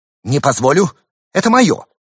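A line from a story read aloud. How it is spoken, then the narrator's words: Angry command. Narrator (Russian): Председатель сердито велел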